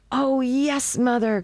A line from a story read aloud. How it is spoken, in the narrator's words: cried youngest child